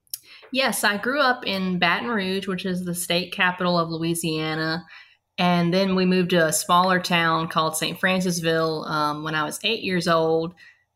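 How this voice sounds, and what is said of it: Southern Mississippi accent. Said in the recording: “I picked up the accent while I was living in Mississippi”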